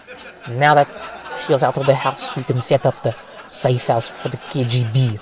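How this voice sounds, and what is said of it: Poor put-on Russian accent. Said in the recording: “That was a terrible Russian accent. I don't even know what the hell that was.”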